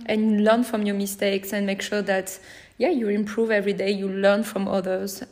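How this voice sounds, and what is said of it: French accent in English. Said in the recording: “my French accent”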